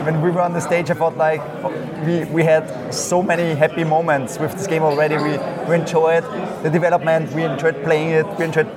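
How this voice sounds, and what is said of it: Austrian-accented English. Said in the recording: “your accent... it is so lovely to hear an Austrian, a Wiener accent.”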